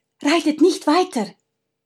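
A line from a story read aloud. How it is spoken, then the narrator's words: Hasty call. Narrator (German): rief sie hastig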